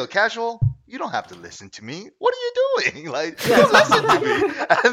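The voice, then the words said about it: Imitates another person's voice. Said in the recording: “A good impression. You've been working on that.”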